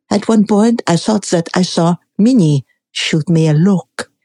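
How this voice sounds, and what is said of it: Put-on French accent. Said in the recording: “that French accent”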